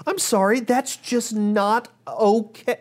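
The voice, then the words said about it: Raised, louder voice. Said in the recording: “I'm raising my voice.”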